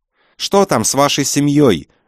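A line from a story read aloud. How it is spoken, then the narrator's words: Shout. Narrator (Russian): закричала Галя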